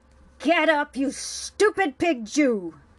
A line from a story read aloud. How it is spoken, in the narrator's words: Heiler snarled